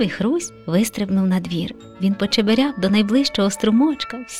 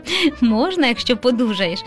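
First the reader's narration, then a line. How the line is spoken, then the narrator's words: Father laughing. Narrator (Ukrainian): засміявся тато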